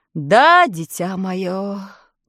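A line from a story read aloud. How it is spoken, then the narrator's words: Sighing. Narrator (Russian): вздохнул Гудвин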